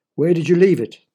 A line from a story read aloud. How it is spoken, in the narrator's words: the doctor asked